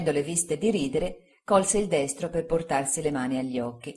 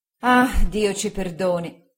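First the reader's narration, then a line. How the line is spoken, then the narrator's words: Sighing. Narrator (Italian): sospirò mia zia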